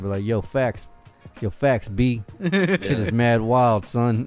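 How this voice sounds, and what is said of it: Put-on New York accent. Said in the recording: “that's a New York accent.”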